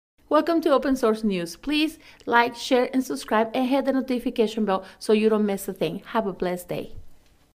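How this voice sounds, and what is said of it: Latina accent. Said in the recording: “my lovely wife with her cute Latina accent”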